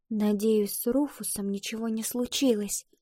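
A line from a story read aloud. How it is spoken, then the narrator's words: Whispering. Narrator (Russian): прошептала Ива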